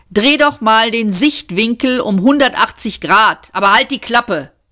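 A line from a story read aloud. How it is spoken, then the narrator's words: Shouting. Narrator (German): rief Seyfert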